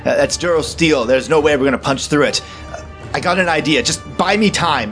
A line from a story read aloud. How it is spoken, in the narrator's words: slams his fist against the controls and shouts